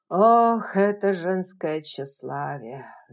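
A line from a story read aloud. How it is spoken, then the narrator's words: Sighing. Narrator (Russian): вздохнул Ред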